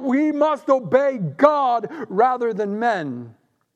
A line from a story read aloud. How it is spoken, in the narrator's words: the apostles cried out